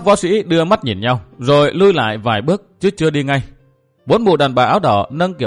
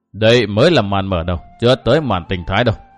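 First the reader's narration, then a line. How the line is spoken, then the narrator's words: Smiling. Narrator (Vietnamese): Không Không Tử mỉm cười tiếp lời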